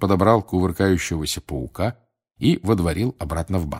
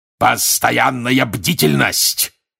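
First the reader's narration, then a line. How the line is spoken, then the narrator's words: Barking. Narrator (Russian): рявкнул он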